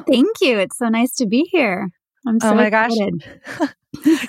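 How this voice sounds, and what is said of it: Clear, direct podcast voice. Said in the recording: “in your podcast voice ... I have a very clear, direct podcast voice.”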